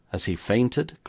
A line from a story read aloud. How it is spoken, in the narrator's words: cried Sir George